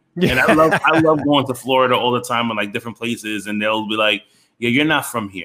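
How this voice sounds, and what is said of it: New York Bronx accent. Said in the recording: “you've got the perfect New York accent ... your accent is so, it's not just New York. You have the Brooklyn accent ... You definitely have the Bronx accent”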